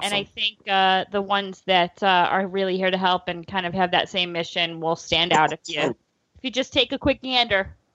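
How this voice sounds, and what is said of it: Noticeable accent, hard A. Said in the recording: “He had to end on the hard A. ... I love the accent. It's fantastic.”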